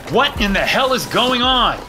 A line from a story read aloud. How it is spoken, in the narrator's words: I shouted, hopping on one foot